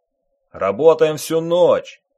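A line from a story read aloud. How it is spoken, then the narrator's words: Foreman barking. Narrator (Russian): рявкнул бригадир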